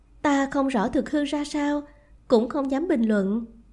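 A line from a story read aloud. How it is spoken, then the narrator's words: Sighing. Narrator (Vietnamese): Nàng thở dài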